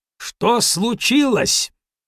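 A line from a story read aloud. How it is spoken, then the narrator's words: Very loud. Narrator (Russian): спросил он очень громко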